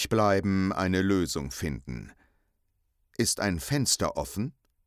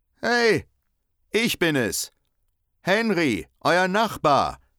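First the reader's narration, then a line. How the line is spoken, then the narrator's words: Calling out. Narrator (German): ruft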